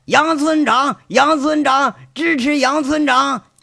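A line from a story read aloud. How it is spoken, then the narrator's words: Rhythmic chanting. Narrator (Chinese): 这话喊到后来，那是很有节奏的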